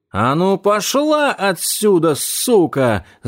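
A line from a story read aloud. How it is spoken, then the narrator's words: Yelling. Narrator (Russian): заорала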